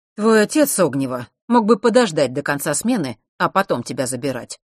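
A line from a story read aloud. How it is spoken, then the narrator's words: Displeased voice. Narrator (Russian): сказал он недовольным голосом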